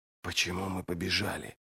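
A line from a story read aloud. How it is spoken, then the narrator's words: Whisper. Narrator (Russian): прошептал он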